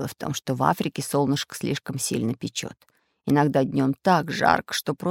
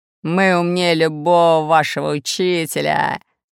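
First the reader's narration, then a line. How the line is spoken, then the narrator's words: Laughing. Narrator (Russian): засмеялся Буль-Буль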